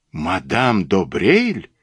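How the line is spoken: Exclaiming. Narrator (Russian): воскликнул

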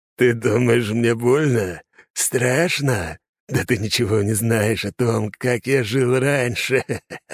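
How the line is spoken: Hissing, wheezing breath. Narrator (Russian): Смех сменился шипением, из пробитых легких с каждым словом вырывался воздух

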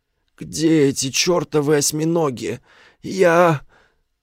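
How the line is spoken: Hoarse rasp. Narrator (Russian): прохрипел

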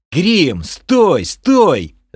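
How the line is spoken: Yell. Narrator (Russian): заорал я

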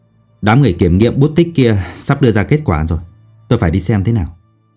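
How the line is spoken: Angry. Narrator (Vietnamese): Dương Học Vũ tức giận nói

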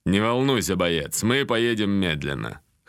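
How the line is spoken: Amused snort. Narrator (Russian): хмыкнул командир

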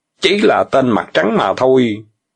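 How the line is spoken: Angry. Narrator (Vietnamese): Tiểu Bàng tức giận nói

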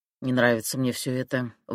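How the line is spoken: Grumbling. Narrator (Russian): ворчал Шальнов

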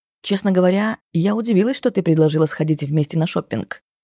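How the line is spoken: Plain. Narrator (Russian): говорит подруга

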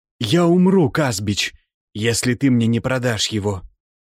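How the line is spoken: Trembling voice. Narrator (Russian): сказал Азамат дрожащим голосом

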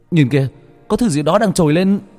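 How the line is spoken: Sudden loud shout. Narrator (Vietnamese): Bất chợt một người trong nhóm của Bách Việt hét lớn

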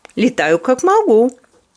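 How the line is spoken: Laughing. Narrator (Russian): засмеялась Кенди

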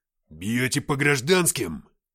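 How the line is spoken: Growl. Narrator (Russian): прорычал Игнат

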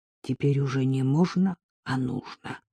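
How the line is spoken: Hoarse reply. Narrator (Russian): прохрипел в ответ Артем

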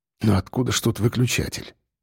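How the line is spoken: Muttering. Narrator (Russian): пробормотал он

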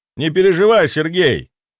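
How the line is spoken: Loud, to be heard. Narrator (Russian): сказал громко, чтобы он услышал

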